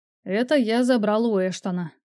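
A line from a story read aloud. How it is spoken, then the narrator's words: Plain. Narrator (Russian): сказал он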